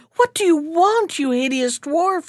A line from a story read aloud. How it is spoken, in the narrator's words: she cried